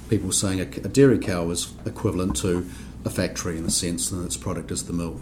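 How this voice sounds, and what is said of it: New Zealand accent. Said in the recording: “you might tell from my accent, I come from New Zealand”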